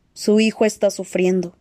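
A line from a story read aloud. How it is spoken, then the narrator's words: Plain. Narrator (Spanish): dijo otro médico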